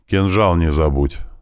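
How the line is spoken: Serious reminder. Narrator (Russian): напомнил отец серьезным тоном

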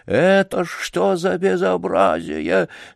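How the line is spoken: Choked, frightened, bossy whisper. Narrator (Russian): захрипел он сдавленным, испуганным и в то же время начальственно сердитым шепотом

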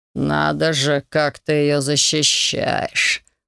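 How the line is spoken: Drawling. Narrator (Russian): протянул Василиск

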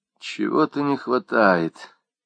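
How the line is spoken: Thoughtful drawl. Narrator (Russian): задумчиво протянула Люсьен

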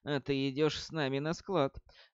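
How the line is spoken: Quiet. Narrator (Russian): тихо сказал

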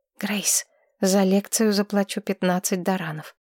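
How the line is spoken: Whisper. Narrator (Russian): Маргарет шепнула

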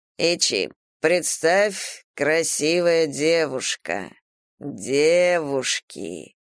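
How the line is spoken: Drawled. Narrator (Russian): протянул государь

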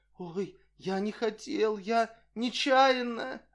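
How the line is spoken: Frightened plaintive mumble. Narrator (Russian): Бледный как полотно, охваченный желанием убежать, спрятаться, он жалобно забормотал

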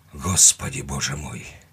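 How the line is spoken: Breathless exclamation. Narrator (Russian): выдохнул хозяин

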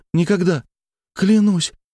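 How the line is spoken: Tearful forced words. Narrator (Russian): утирая катившиеся по личику слезы, выдавила из себя Женя

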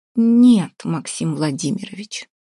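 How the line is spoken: Languid sigh. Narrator (Russian): томно вздохнула Вася

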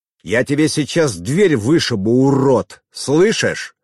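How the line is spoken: Growling. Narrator (Russian): Рычал

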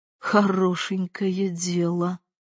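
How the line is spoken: Muttered. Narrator (Russian): пробормотал он

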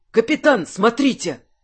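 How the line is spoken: Exclaimed. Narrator (Russian): воскликнул помощник Жерара

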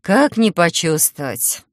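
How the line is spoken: Sighing. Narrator (Russian): вздохнула я

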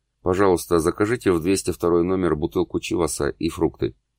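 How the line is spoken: Quiet man speaking. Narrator (Russian): мужчина тихо сказал портье

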